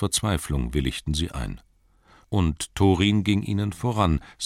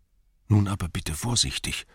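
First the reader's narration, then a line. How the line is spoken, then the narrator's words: Whispering hobbit. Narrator (German): flüsterte der Hobbit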